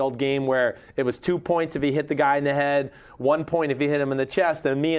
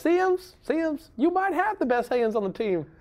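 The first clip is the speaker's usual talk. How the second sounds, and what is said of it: Imitates another person's voice. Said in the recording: “You're doing a Randy Moss impression.”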